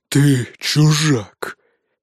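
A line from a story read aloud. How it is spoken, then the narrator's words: Hoarse reply. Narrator (Russian): хрипло ответил ему Нуке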